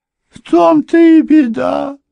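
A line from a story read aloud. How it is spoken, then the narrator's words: Moaning elderly woman. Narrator (Russian): застонала пожилая женщина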